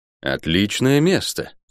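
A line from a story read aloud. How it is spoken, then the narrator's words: Plain. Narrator (Russian): сказал милорд Ранда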